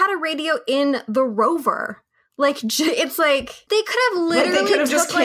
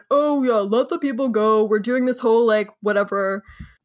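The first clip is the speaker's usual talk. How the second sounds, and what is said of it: Imitates another person's voice. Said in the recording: “your Zach McGowan impression”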